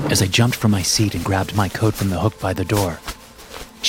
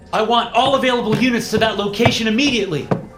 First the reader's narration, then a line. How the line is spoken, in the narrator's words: I shouted as I ran down the hallway